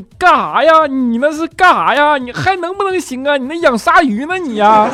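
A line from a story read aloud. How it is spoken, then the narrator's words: Straining, yelling. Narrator (Chinese): 佳期扯着脖子跟他爸喊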